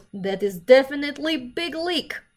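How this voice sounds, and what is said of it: Thick foreign accent. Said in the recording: “he had a pretty thick accent.”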